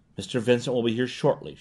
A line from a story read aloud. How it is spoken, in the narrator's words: she said calmly